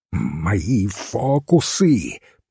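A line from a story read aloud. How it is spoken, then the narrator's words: Furious hiss. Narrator (Russian): прошипел его бледный соперник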